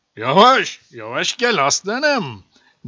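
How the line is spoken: Plain. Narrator (Turkish): dedi tilki

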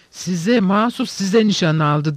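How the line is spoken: Several voices shouting. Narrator (Turkish): diye bağırıyorlardı

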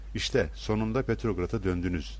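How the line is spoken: Plain. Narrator (Turkish): dedi

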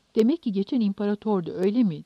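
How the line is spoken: Plain. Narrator (Turkish): dedi

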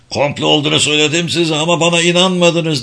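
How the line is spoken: Shouted angrily. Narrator (Turkish): diye öfkeyle bağırdı Galta

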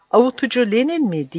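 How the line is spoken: Crying out. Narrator (Turkish): diye haykırdı

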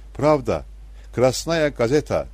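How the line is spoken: Shouting. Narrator (Turkish): diye bağırıyordu

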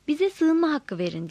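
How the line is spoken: Begged. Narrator (Turkish): diye yalvardım

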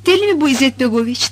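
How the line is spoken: Plain. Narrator (Turkish): dedi Azra

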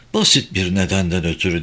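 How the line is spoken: Low-voiced reply. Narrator (Turkish): diye cevap verdi Alan alçak sesle

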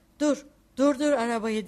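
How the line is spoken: Shouted. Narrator (Turkish): diye bağırdı

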